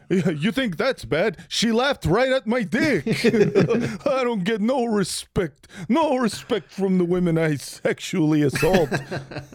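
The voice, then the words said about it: Imitates another person's voice, cartoonish. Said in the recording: “that's what he sounds like, right? ... you sound good. like a cartoon dog doing an impression of Rodney Dangerfield”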